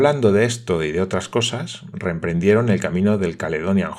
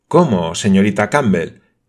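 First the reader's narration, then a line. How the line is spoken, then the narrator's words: Exclaiming. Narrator (Spanish): exclamó Olivia Sinclair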